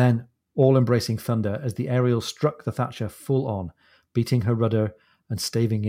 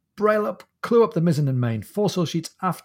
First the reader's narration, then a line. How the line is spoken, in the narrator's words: he cried